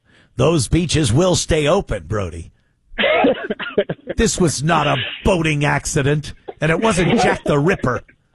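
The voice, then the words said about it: Imitates a film character's voice. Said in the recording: “great Mayor of Amity impression.”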